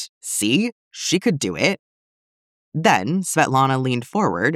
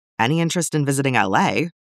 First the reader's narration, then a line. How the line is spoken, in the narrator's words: Rose asked